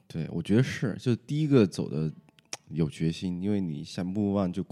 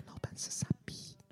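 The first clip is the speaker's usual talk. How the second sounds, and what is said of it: Whispered aside. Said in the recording (Chinese): “小声的说”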